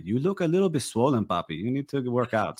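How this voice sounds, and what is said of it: Put-on Spanish accent. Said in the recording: “that accent? ... In the Spanish accents?”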